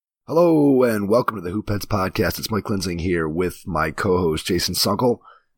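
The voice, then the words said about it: Rough, strained voice. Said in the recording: “I'm playing hurt tonight, so my voice is a little bit rough”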